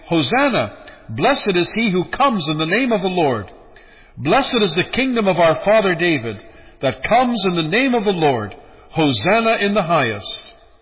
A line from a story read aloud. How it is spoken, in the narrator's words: those who went before and those who cried out, saying